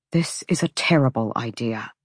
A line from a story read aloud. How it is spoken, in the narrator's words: Hunt deemed it safe to mutter